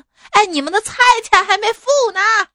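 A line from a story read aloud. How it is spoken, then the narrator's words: Exasperated shout. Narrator (Chinese): 阿姨无奈之下大喊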